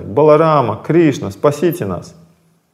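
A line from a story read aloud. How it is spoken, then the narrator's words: Terrified trembling cries. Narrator (Russian): Дрожа, словно лани, при виде страшного волка, гопи закричали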